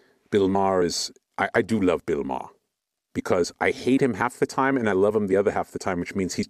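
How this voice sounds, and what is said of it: Usual voice. Nothing is said of it.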